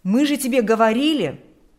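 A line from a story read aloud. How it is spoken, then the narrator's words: Exclamation. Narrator (Russian): вполне оправданно смогут воскликнуть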